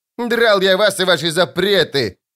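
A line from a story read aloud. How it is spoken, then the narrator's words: Boy yelling from afar. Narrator (Russian): заорал парнишка с безопасного расстояния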